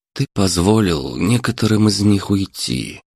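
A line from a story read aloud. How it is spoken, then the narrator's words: Very gentle, faintly reproachful. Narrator (Russian): максимально мягко начал Дмитрий, но Леша услышал в этом упрек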